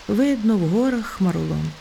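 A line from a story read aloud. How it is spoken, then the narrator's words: Sighing. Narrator (Ukrainian): зітхнула Півоня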